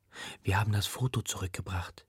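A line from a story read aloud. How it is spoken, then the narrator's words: Whisper. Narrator (German): flüstere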